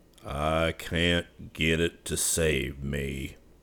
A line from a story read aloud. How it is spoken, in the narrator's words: Yuma growled